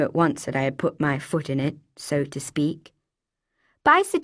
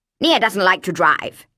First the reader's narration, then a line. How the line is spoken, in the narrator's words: he snapped